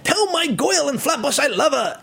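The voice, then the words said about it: Exaggerated old New York accent. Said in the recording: “what the New York accent sounded like”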